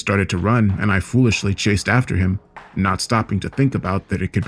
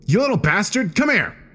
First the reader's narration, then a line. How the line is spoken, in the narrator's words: I lost my temper at this, shouting